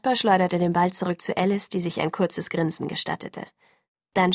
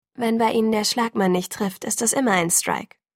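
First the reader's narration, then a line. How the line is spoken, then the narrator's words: Plain. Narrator (German): sagte Esme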